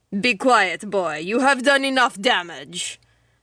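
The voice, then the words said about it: Deep, thick Russian-accented woman's voice. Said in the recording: “The woman's thick Russian accent was noticeable ... It was deep, much deeper than a woman's voice should be, and had the proper authority”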